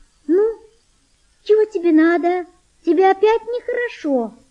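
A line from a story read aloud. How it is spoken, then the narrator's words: Thin gentle voice. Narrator (Russian): сказала она тонким нежным голосом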